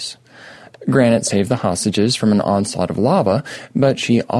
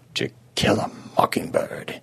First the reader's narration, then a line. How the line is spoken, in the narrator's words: he murmured